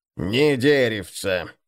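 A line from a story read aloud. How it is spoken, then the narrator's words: Grumbling over splashing oars. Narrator (Russian): доносилось сквозь мерный плеск весел бурчание Гнупа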